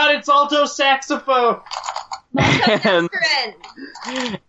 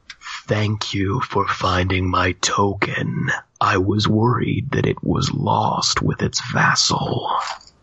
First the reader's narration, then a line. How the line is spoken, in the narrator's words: A whispering, chilling voice that resonates says